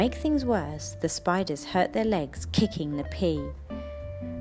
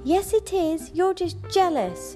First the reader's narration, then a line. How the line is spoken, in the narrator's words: shouted the spiders on Speedy's team